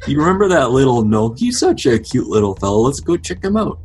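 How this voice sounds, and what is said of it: Put-on accent drifting Minnesotan. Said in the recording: “becoming more and more Minnesotan ... I cannot keep my accent straight”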